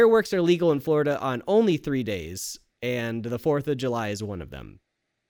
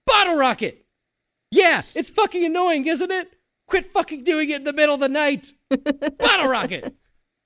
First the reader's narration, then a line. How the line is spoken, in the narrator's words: The guy screaming goes